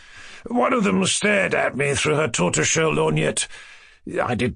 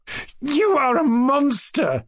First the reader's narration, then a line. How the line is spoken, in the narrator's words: exclaimed Nastasia Philipovna, laughing